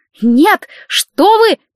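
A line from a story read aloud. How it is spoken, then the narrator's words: Shouting. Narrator (Russian): закричала Елена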